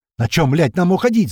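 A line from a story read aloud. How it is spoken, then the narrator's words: Angry shout. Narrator (Russian): зло кричит Слива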